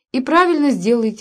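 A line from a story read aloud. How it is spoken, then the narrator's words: Tender exclamation. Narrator (Russian): воскликнул он, с нежностью глядя на девушку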